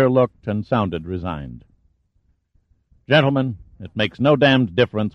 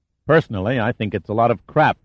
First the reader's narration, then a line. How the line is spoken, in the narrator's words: Pitt said sharply